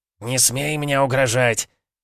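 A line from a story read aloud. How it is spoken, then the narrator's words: Strained hiss while falling. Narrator (Russian): Кречету удалось прошипеть эти слова, когда он сорвался с ветки и вылетел прочь из виноградной западни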